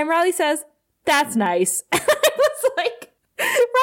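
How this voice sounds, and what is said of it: Usual voice. Nothing is said of it.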